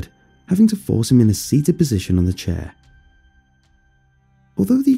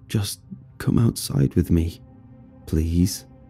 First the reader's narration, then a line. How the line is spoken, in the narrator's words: Darren yet again mumbled